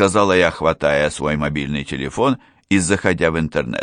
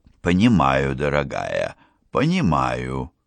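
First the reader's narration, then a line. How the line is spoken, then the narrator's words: Soft. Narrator (Russian): произнесла Одри мягко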